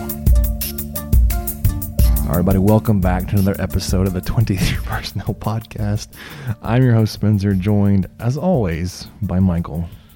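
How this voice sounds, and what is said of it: Hoarse, strained voice. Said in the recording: “I'm losing my voice after being at the basketball game last night”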